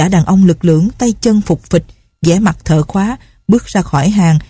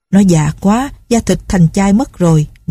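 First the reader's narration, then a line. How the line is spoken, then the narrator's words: Plain. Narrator (Vietnamese): gã khác nói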